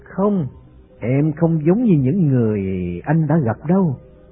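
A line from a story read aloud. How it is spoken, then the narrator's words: Calm, gentle, smiling. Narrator (Vietnamese): Bhairavi vẫn thản nhiên mỉm cười nói một cách nhẹ nhàng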